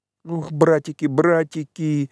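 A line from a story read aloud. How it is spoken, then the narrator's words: Sobbing, teeth chattering. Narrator (Russian): всхлипывал Петька, дрожа, как лист и стуча зубами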